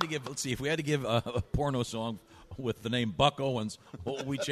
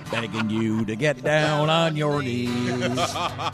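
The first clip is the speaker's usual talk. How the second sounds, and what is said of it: Singing with a country twang. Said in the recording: “does a nice twang.”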